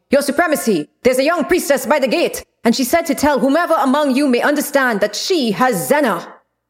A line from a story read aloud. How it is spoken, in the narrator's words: an elite guard came running into the room shouting